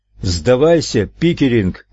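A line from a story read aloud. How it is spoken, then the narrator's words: Shouting. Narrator (Russian): крикнул Нелл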